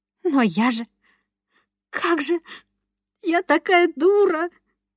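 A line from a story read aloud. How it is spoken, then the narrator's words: Muffled sobbing. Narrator (Russian): всхлипнула громче и зажала рот ладонью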